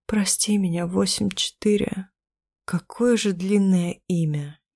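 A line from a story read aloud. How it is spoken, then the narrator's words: Slow halting dazed speech. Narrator (Russian): из-за тумана в голове уже не в силах его произнести, поэтому медленно, с перерывами, говорю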